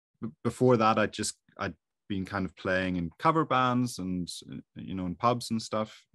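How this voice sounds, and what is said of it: Irish accent. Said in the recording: “I'm from Ireland, you'd probably hear with the accent.”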